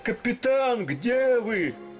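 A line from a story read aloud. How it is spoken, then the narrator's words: Shout. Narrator (Russian): Летика кричал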